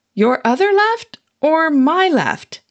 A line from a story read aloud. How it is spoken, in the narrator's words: I yelled back